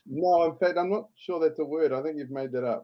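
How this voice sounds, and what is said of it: Thick New Zealand accent. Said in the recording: “my thick South Pacific accent”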